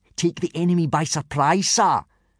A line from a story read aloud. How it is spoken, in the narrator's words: shouted out Snot-Face Snotlout, a tall, unpleasantly smug-looking boy